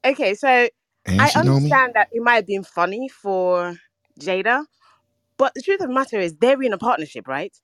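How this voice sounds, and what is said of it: London accent. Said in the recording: “London. She got that accent too.”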